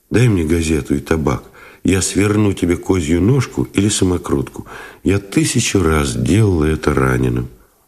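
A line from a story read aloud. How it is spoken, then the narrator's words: Soft request. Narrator (Russian): попросила мягко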